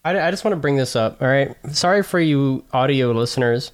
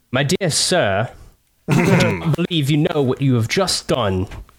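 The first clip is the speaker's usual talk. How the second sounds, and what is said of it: Colonial-era gentleman character voice. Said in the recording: “this gives me Jeb vibes if Jeb was like in the colonial era”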